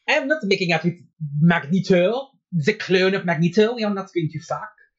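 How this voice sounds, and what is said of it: Put-on French accent. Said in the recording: “that's a real French, that's not Cajun... That's France French”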